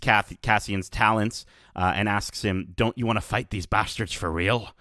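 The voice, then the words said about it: Imitates a film character's voice. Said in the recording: “my Luthen impression”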